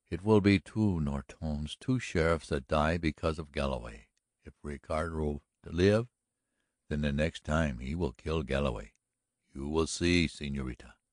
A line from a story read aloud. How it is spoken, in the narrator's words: mumbled Ignacio